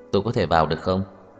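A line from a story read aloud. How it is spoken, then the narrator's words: Sudden laugh. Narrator (Vietnamese): Tưởng Thiên Lỗi đột nhiên cười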